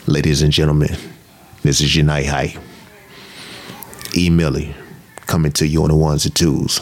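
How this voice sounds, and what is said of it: Radio DJ announcer voice. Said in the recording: “A little radio voice. ... that's perfect radio voice”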